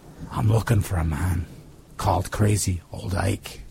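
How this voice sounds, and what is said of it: Deep Irish-Australian accented voice. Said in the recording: “a deep, uncultured voice ... accent combined broad Australian vowels with the lilt and crisp consonants of the Irish”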